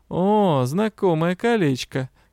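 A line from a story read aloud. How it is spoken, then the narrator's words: Grim. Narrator (Russian): мрачно заявил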